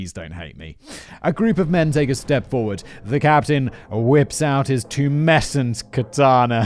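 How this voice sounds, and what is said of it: Usual voice. Nothing is said of it.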